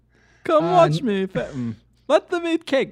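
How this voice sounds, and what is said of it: Put-on Queen of England accent. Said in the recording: “You want me to have my accent? ... Little Queen of England.”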